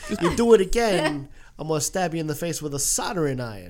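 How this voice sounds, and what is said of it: Imitates another person's voice. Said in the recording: “does a great Christopher Walken impression. ... I'm going to do the impersonation. ... I'm going to do the impersonations.”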